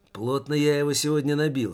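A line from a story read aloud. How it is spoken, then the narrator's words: Said with a chuckle. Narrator (Russian): сказал Таборский и хохотнул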